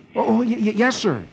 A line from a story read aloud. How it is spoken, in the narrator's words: Dick, who never expects himself to be meeting such a famous man, gasps